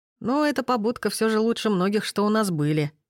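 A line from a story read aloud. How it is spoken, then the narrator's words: Chuckling. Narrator (Russian): хохотнул Васильев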